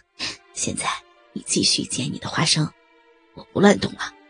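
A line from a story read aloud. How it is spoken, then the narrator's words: Soft laugh close to ear. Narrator (Chinese): 杜明嘴巴在他羞红的耳朵边吹了口气，轻笑道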